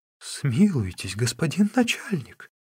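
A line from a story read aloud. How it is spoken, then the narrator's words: Pleading. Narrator (Russian): взмолился управляющий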